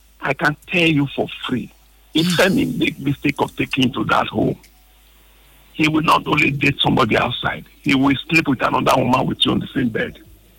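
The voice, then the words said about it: Raised, high-pitched agitated voice. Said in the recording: “I'm not always like this. You can see my voice is even high.”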